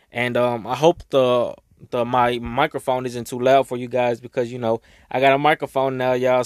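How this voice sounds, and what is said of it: Slightly raspy voice. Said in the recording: “my voice sounds like a little raspy or it doesn't sound right, that's just because I just got done crying”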